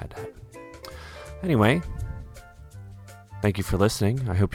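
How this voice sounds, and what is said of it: Usual voice. Nothing is said of it.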